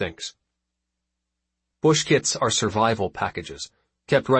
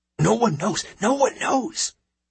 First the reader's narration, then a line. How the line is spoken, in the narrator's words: hisses Mektu